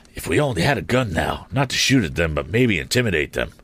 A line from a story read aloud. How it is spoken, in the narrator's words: murmured the balloonist